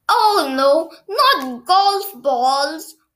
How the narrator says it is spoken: wailed

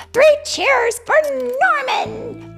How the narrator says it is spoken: the dragons cried

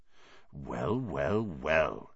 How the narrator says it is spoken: he whispered

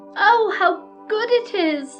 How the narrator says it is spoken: cried the rabbit

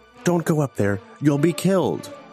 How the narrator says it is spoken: His comrades pleaded with him

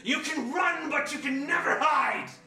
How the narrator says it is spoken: he hears shouting from the side

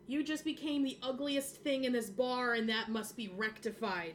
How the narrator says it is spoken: yell

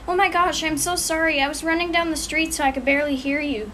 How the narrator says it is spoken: she cried

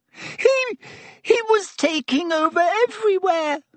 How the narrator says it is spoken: gasped Pettigrew

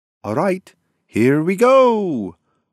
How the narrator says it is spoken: screamed Flicker

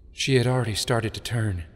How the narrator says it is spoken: Sheik whispered

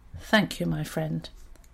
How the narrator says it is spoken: Smiling with all the courage he could muster, he said quietly

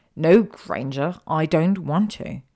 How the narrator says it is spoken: Draco said firmly

